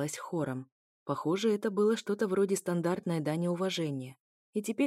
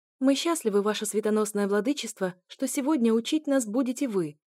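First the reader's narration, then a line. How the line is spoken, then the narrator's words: Joyful exclamation. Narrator (Russian): воскликнула радостно Сиала Эллана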